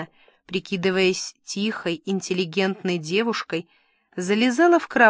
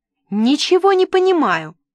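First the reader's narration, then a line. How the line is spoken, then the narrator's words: Loud yell. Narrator (Russian): заорала я так, что люди в холле начали оглядываться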